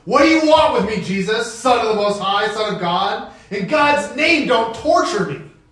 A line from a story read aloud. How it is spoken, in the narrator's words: He shouted at the top of his voice